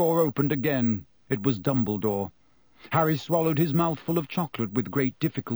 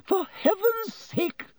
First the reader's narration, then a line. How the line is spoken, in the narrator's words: said Madame Pomfrey hysterically